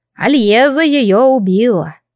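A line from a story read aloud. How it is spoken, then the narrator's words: Sighing. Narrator (Russian): вздохнул жрец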